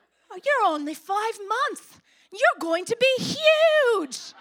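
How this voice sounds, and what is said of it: Poor put-on British accent. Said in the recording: “He's British and I do an awful accent ... That's not even British”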